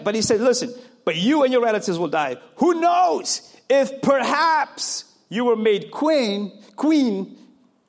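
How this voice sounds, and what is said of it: African accent. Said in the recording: “African in me, accent gets me every time.”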